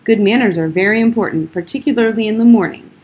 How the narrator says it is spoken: snapped Old Golly

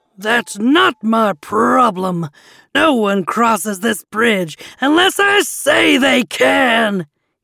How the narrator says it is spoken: shouted

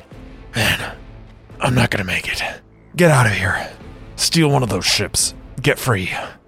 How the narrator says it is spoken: He was rasping

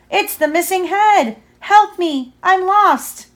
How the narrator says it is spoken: it cried again

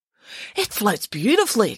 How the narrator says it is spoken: exclaimed Michael

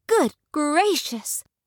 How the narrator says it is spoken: Before she knew it, she cried

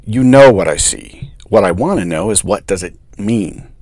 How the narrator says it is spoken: growled

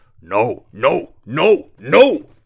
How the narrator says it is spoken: bellowed the troll

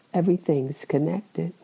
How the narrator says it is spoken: The wise man quietly said

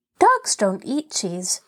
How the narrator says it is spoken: Benny remarked cheerfully

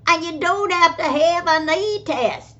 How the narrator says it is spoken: shouting

